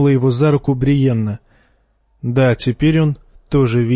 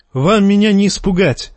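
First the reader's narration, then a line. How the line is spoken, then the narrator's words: Shouted. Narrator (Russian): крикнул Джейме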